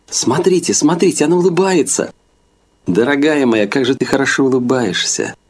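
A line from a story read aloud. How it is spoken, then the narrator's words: Exclaiming. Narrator (Russian): воскликнула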